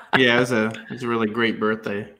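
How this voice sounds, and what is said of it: Sarcastic tone. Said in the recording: “sarcasm.”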